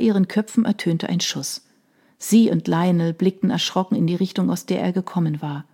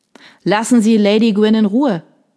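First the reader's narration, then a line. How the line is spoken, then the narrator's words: Called out. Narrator (German): rief Major Wolf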